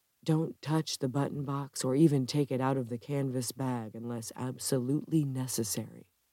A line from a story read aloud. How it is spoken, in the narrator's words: Richard Ferris's voice whisper inside her head